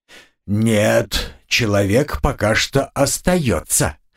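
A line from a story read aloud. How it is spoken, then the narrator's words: Said through clenched teeth. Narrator (Russian): процедил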